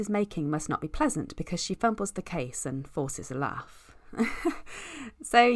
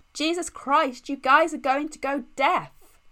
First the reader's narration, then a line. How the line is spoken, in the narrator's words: Steve shouts